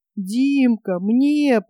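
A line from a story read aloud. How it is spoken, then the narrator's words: Tearful whimper. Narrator (Russian): плаксиво захныкал Топ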